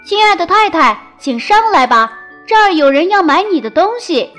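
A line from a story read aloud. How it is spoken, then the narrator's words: Calling out. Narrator (Chinese): 小裁缝……喊道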